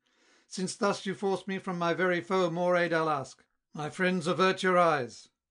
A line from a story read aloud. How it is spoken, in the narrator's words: his valour Perseus found oppressed by crowds unequal, and aloud exclaimed